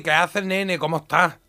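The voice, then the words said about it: Jaén Spanish accent, closed sounds. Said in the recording (Spanish): “acento de Jaén ... A ver, hazlo un poco ... es un poco así más cerrado”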